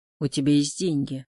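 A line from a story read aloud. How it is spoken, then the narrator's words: Calm. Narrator (Russian): спокойно сказал он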